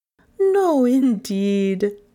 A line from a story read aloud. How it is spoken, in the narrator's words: had answered, laughing